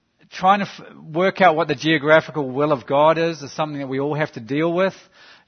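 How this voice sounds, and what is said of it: New Zealand accent. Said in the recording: “You have to try and deal with my accent. It's a New Zealand accent, but I'll try to smooth out the bits.”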